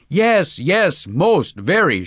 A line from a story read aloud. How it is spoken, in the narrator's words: shouted Vladimir Vrusilov enthusiastically